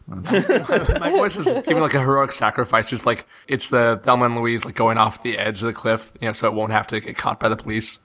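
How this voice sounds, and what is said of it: Hoarse, fading voice. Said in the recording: “the losing your voice”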